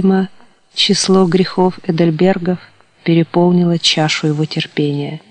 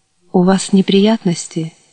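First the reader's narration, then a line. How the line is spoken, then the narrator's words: Soft question in English. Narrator (Russian): мягко спросил он по-английски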